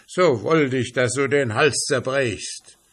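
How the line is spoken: Annoyed impatient shout. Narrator (German): ward er zuletzt ärgerlich und rief ganz ungeduldig

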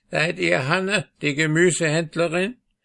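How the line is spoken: Old woman, croaking voice. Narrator (German): fragte das alte Weib mit unangenehmer, krächzender Stimme

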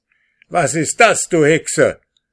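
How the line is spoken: Frantic scream. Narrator (German): schrie außer sich

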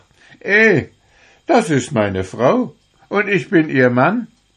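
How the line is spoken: Laughing speech. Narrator (German): lachte er und sprach

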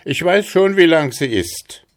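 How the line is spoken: Called out. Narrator (German): rief er dem Riesen zu

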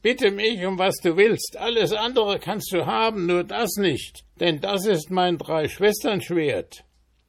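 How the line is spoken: Scream. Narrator (German): schrie sie

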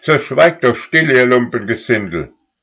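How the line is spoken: Called out. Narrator (German): rief

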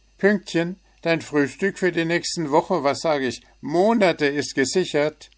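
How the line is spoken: Loud shout. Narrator (German): Zwitschi rief lauthals

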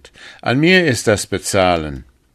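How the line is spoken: Sergeant calling out. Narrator (German): rief der Sergeant

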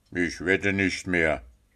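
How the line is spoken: Grumbled. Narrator (German): brummelte Puh

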